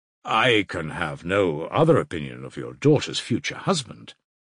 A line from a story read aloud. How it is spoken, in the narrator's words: Razumihin answered firmly and with warmth